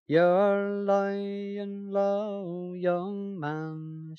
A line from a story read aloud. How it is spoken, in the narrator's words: she says